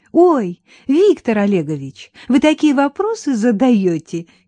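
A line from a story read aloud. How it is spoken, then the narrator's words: Giggling girl. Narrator (Russian): хихикнула Таня Саблина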